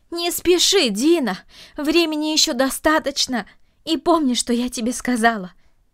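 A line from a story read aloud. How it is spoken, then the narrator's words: Calling after someone. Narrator (Russian): крикнула она ему вслед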